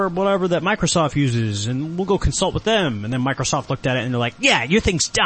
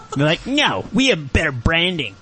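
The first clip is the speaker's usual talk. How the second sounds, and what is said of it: Imitates another person's voice. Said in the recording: “you're almost doing a Bill Gates impression”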